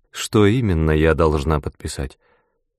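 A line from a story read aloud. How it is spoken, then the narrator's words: Calm. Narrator (Russian): спокойно спросила она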